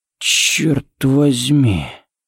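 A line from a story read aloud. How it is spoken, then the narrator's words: Breathed out close by. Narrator (Russian): выдохнул Харри у него над ухом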